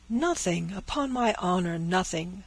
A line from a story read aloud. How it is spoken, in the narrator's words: cried the father, shrinking from the paper as from contagion